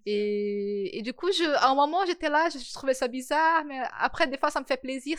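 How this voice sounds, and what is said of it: Brazilian accent speaking French. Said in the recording (French): “vous êtes brésilienne ... il y a quelque chose marqué dans mon accent.”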